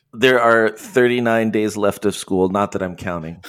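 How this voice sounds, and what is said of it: Tired-sounding voice. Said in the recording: “I'm so tired. ... You sound tired.”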